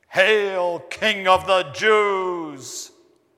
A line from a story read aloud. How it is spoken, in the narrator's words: They mocked him, saying